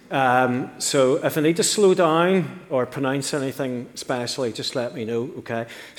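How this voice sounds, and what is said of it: Noticeable non-local accent. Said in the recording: “you need to try and understand my accent”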